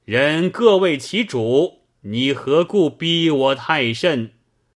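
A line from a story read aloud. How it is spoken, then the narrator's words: Loud reply. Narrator (Chinese): 乔道清在前面马上高声答道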